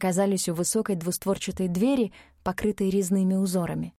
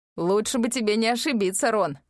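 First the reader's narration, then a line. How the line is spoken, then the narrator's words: Guard chuckling. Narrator (Russian): хохотнул один из тех, кто стоял на страже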